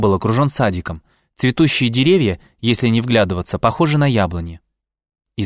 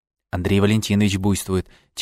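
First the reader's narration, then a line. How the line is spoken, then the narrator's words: Quiet. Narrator (Russian): тихонько сказала Маша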